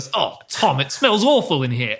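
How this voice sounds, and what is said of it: Imitated English accent. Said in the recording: “my dad, he's English. So I'm going to do his accent”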